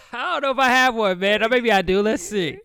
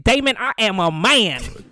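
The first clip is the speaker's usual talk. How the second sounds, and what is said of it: Cat Williams impression. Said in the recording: “your Cat Williams impression”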